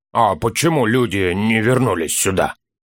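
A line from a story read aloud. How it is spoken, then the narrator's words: Hoarse dwarf voice. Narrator (Russian): Нарушил, наконец, тишину хриплый голос гнома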